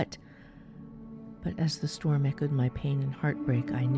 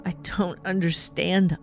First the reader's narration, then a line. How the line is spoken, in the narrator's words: I wailed back